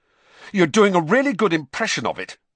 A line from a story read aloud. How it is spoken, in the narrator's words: Harry snapped